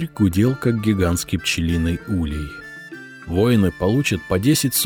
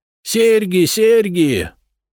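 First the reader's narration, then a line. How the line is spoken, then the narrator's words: Yelling merchant. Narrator (Russian): орал купец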